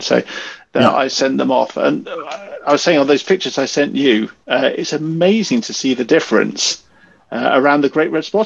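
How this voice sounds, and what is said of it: British accent. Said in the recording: “I'm a member of the BAA, the British Astronomical Association, as you can probably tell by my accent.”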